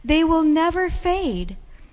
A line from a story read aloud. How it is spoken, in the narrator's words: I cried out